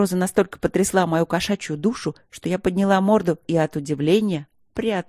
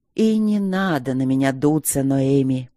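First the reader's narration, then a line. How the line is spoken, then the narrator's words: Tired. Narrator (Russian): устало сказал мужчина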